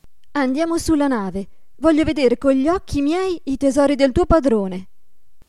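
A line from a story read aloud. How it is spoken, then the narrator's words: Very curious exclamation. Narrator (Italian): esclamò ella, più che mai curiosa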